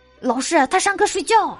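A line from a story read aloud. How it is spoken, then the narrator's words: Several boys calling out. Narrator (Chinese): 几个男同学喊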